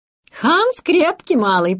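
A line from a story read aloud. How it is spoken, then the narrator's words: Cheerful. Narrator (Russian): проговорила Хильда весело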